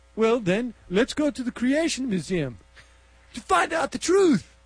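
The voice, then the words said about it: Bad put-on Czechoslovakian accent. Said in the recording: “Freaking horrible accent... It's like Czechoslovakia. It's like that Steve Martin, wild and crazy guys. It's embarrassing.”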